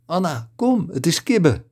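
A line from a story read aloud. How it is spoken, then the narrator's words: Excited call. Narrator (Dutch): Floor riep opgewonden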